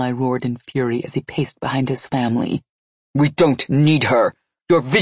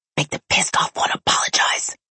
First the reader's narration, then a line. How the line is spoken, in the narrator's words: Essie whispered in my ear